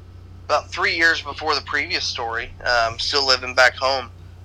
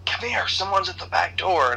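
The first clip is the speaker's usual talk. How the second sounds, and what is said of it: Whisper yell. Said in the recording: “mom had this voice, this yell, whisper yell ... my best, you know, impersonation of that”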